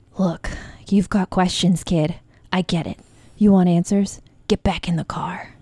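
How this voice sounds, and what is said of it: Breathy imitation of an actress's voice. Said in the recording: “She's just breathy ... We're all so good at Charlize”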